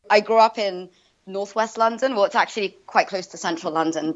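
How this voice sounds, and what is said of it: Non-American, London English accent. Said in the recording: “your accent indicates that you're from somewhere else”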